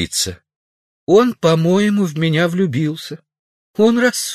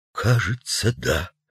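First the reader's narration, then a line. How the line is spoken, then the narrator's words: Quiet, reluctant. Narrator (Russian): произнес тихо редактор, не смея отрицать, но и не желая, чтобы сотрудники услышали об этом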